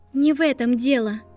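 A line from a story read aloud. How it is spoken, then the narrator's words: Trembling voice. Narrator (Russian): дрогнувшим голосом ответила Гермиона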